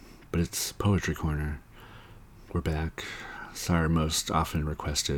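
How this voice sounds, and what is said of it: Usual voice. Nothing is said of it.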